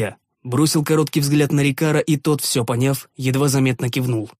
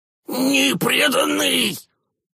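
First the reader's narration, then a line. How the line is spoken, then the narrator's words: Goblin's squeak. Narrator (Russian): пискнул гоблин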